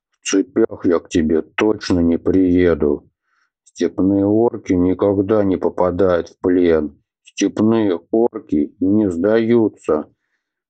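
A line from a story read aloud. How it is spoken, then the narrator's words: Mental growl. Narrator (Russian): Мысленно рыкнул Атхи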